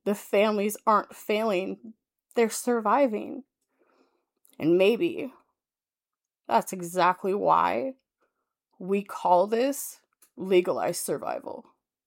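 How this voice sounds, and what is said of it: Emotional, moved voice. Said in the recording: “I got a little emotional there.”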